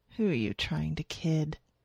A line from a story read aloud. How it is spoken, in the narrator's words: she whispered